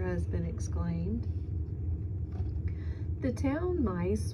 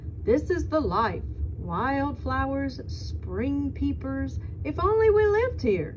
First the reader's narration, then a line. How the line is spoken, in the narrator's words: the town mouse exclaim